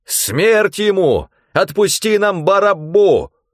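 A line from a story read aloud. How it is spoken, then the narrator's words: Crowd shouting in unison. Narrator (Russian): все как один закричали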